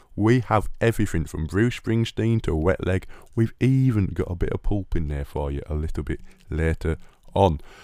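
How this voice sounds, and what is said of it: Noticeable regional British accent. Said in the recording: “I know I've got a funny old accent”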